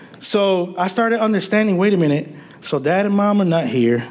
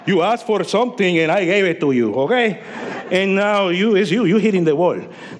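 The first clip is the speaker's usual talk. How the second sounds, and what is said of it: Heavy Hispanic accent voicing God. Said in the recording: “sometimes he speaks with that... sometimes I hear him like that with that little heavy Hispanic accent”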